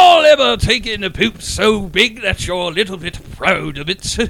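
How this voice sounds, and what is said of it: Usual voice. Nothing is said of it.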